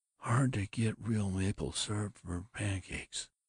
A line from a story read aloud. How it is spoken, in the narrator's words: heard her sighing